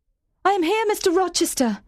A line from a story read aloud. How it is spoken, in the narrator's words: I cried